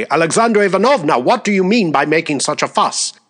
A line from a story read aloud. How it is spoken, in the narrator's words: She said sternly